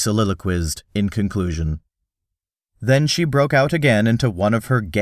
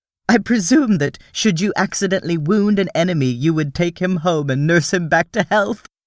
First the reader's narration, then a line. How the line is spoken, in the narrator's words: she laughed